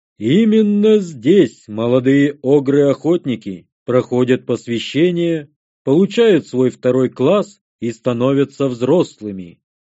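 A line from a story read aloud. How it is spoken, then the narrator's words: Booming voice. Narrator (Russian): прогудел Оглан-Удралокш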